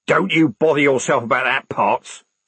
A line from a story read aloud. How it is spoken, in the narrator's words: snapped the corporal